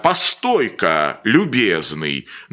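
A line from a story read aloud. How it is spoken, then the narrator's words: Fat gentleman's bossy drawling bass. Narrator (Russian): начальственным басом протянул толстый господин в золотых очках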